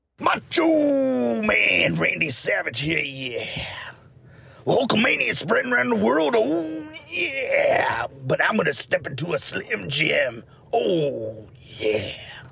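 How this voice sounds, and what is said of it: Good Macho Man Randy Savage impression. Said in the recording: “You do a good Macho Man impersonation.”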